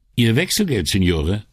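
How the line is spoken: Called after someone. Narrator (German): rief ihm der Barmann nach

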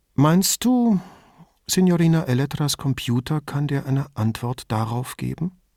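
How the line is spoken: Very gentle question. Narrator (German): fragte so sanft wie eine Frühlingsbrise

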